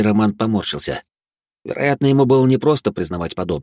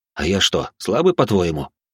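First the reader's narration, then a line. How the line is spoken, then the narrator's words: Scoffing snort. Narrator (Russian): хмыкнул я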